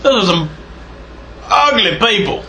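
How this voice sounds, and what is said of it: Put-on Scottish accent. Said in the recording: “Back in my Scott voice.”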